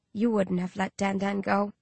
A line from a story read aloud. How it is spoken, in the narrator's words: I mutter